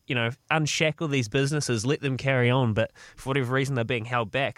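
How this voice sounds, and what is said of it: Imitates another person's voice. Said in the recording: “That's my Baz McCullum impersonation.”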